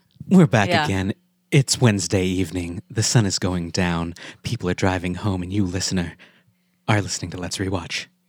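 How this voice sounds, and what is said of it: Sultry smooth-jazz radio host voice. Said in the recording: “smooth jazz ... It sounds like you're doing NPR voice ... It's pretty much NPR voice. ... But it's a little more sultry.”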